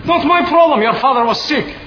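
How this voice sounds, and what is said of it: Yelling angrily. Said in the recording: “Stop yelling at me!”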